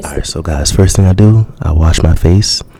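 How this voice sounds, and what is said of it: Intimate close-mic radio voice. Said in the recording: “get real intimate, get right into the mic for this one ... use your radio voice.”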